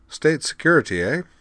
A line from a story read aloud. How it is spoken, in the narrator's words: he went on, chuckling with feigned embarrassment